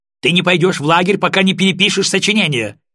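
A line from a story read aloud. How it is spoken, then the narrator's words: Yelling, nearly shrieking. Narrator (Russian): орала Алиса, почти срываясь на виск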